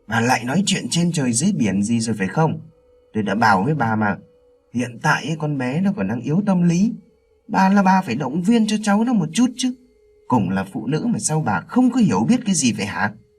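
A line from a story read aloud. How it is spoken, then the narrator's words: Irritated snapping. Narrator (Vietnamese): Ông Minh gắt vợ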